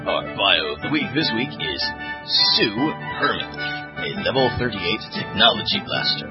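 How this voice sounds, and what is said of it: Announcer voice. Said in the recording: “put on my announcer voice”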